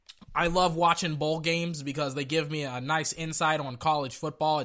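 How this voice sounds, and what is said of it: Hoarse, strained, worn-out voice. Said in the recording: “my throat literally feels like a hot coal got placed down into it ... I'm gonna be very, very winded ... My voice is gonna be shot. I'm gonna sound like this for the entire podcast.”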